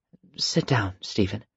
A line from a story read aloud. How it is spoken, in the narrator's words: Carmen said quietly, smiling